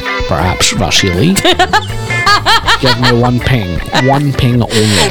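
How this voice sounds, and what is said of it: Scottish-accented Sean Connery-style impression. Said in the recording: “a Scottish actor pretending to be a Russian by doing a Scottish accent”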